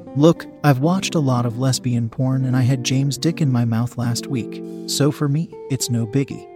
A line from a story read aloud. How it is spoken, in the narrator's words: she said, calmly